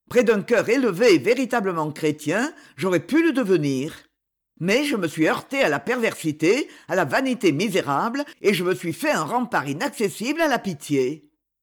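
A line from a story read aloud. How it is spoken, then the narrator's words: Bitter. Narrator (French): dit-il d'un ton amer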